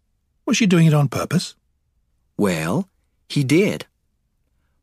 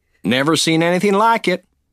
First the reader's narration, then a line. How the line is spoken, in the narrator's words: said Lee